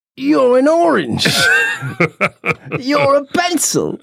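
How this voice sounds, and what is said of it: Imitates another person's voice. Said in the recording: “my Keith Richards impression”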